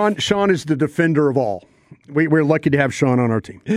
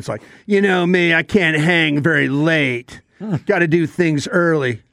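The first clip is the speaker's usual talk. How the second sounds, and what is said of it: Imitates another person's voice. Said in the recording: “I like the voice, but it is the content of that impersonation... Spot on.”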